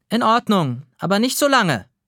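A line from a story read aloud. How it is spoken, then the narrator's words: Calling back. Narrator (German): ruft Mama zurück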